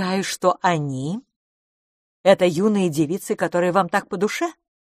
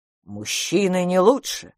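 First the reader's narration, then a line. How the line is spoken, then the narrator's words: Angry. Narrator (Russian): сказал Джо сердито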